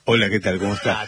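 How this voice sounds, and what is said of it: Radio announcer voice. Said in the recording (Spanish): “Esa voz de locutor.”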